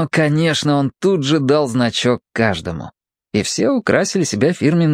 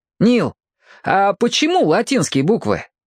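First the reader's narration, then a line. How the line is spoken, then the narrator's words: Cheerful question. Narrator (Russian): весело спросил Борис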